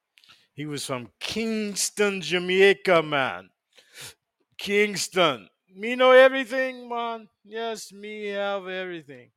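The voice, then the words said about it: Put-on Jamaican accent. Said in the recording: “So that's my Jamaican accent. ... That's about as much as Jamaican I can speak.”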